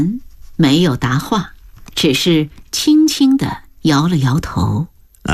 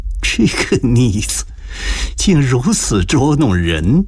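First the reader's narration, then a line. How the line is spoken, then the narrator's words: Relieved, muttered laughing scold. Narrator (Chinese): 如蒙大赦般舒了一口气，暗自笑骂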